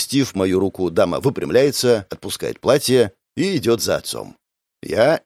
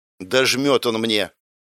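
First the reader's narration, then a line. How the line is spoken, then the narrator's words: Grumble. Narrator (Russian): пробурчала она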